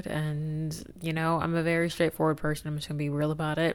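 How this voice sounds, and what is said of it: Tired, physically drained voice. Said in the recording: “I sound exhausted ... I'm very, very, like, tired, like, physically drained ... if I sound physically drained in this episode”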